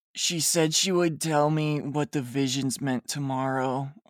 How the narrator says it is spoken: I grumbled in a sexy voice

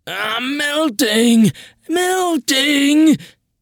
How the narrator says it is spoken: I pretended to screech

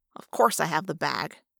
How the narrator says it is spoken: Marco grumbled

